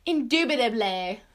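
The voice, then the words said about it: Put-on British accent. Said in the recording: “say it with a British accent”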